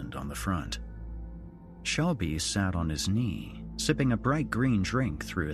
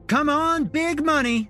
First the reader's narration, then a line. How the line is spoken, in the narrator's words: Shelby called out